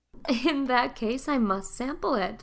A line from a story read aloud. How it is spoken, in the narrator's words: laughed Mrs